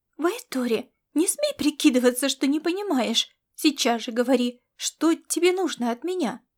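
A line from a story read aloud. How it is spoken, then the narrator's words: Exclaimed. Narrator (Russian): Воскликнула она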